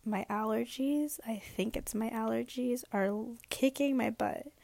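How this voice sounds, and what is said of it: Sick, hoarse voice being lost. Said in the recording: “I'm pretty sick right now. I am losing my voice. ... My nose, my throat, I'm coughing.”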